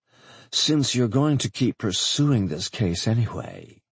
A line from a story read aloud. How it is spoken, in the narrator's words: she purred